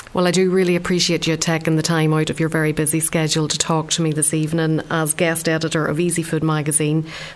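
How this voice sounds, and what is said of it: Irish Donegal accent. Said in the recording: “that lovely Donegal accent.”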